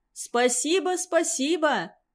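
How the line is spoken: Joyful. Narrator (Russian): радостно отозвался старик

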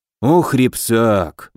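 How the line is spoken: Sighed. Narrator (Russian): вздохнул Добрыня

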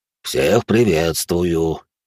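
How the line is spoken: Hoarse giant. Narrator (Russian): хриплый гигант

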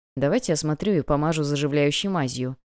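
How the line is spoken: Mumbling. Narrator (Russian): пробормотал Томас

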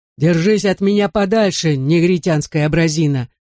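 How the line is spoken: Menacing warning. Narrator (Russian): грозно предупредил Человека-Луну большое дуло

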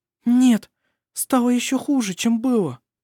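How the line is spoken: Frightened. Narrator (Russian): сказала она, испуганно взглянув на него

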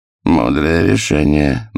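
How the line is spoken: Mocking remark. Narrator (Russian): насмешливо обронил герцог

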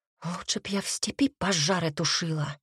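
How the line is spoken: Muttered. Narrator (Russian): пробормотала я

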